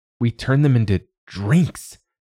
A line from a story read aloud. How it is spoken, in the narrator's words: Callie snapped